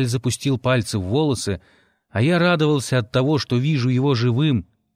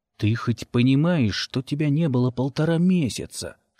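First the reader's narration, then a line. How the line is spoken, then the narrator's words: Hissed reply. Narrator (Russian): шипел я в ответ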